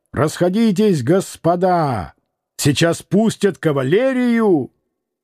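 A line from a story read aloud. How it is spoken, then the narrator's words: Loud shout. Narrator (Russian): громко закричал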